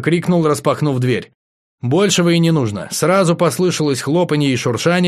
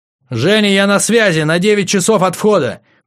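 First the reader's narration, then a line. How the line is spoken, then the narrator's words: Shouted. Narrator (Russian): крикнул я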